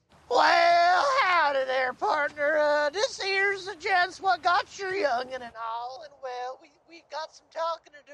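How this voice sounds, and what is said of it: Put-on old prospector Southern accent. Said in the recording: “Just do a southern accent. ... Southern, like not old. Prospector. ... I thought that was pretty good.”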